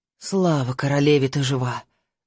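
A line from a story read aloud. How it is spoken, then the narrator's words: Breathless relief. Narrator (Russian): выдохнула она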